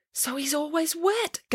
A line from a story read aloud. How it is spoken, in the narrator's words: gasped Samantha